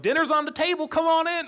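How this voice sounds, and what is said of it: Put-on Kentucky accent. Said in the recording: “that was my best Kentucky accent. I'm sorry if that was offensive. But I tried”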